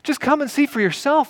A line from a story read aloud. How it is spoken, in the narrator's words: pleaded